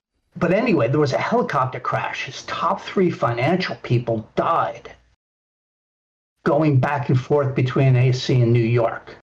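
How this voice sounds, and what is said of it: New Jersey accent. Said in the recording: “I'm a Jersey boy ... You could probably tell in my voice, too.”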